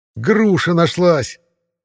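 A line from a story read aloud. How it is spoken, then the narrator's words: Loud yell. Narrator (Russian): заорал кто-то из братьев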